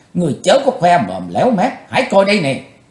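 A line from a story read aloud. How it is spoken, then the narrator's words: Angry crisp laugh. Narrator (Vietnamese): Quỳnh Giao giận dữ cất tiếng cười giòn giả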